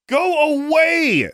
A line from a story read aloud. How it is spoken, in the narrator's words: shouted